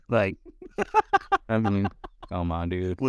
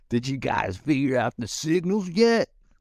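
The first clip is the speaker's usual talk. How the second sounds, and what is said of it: Imitates another person's voice. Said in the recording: “Was that your Jock Peterson impression?”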